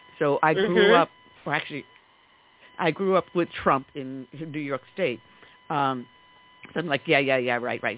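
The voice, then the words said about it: New York accent. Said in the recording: “you can tell from my dialect, I'm a native New Yorker.”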